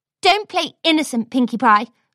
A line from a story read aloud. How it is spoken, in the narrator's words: snapped Rarity